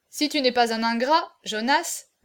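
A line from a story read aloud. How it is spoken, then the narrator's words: Earnest, heartfelt tone. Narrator (French): dit Nocé d'un ton pénétré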